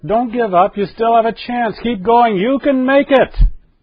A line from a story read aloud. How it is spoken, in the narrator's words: You want to shout